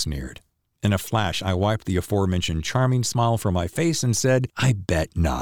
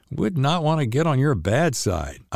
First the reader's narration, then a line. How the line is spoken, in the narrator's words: I chuckled